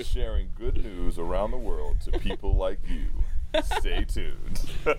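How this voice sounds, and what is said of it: Deep movie-trailer announcer voice. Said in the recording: “that radio voice that you've been blessed with ... You need to start doing movie trailers.”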